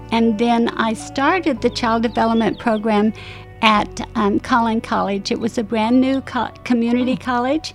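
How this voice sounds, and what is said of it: Utah accent with some Southern tinge. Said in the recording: “I didn't think you were from Texas, but because your vo- your accent ... that probably coming from Utah, but since I've been in Dallas, it's more southern than it used to be.”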